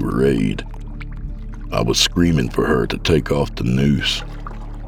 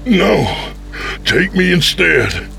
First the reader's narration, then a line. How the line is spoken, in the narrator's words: pleaded